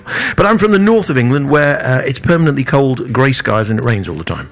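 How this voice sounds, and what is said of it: Northern English accent. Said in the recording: “me being a Brit, you see, from the north of England, as you can probably tell. Well, I don't know if you can tell by the accent or not.”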